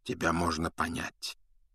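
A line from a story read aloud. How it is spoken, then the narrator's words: Quiet. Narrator (Russian): тихо проговорил Дамблдор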